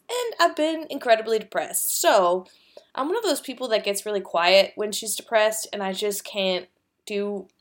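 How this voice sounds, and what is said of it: Sick-sounding voice. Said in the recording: “I've been sick, as you could probably hear from my voice”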